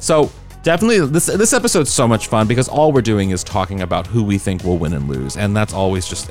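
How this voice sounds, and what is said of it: Usual voice. Nothing is said of it.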